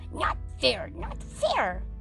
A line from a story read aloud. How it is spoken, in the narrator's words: he hissed